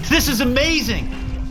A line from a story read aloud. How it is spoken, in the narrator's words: Kenny shouted